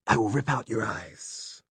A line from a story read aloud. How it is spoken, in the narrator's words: hissed the creature